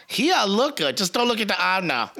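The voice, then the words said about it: Put-on Asian accent, done badly. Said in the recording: “I do that accent totally wrong, by the way... the Asian, you know, voice joke thing”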